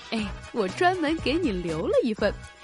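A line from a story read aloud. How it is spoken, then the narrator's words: Smiling. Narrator (Chinese): 老板又笑着说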